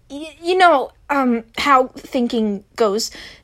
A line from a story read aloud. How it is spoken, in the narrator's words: Tim said nervously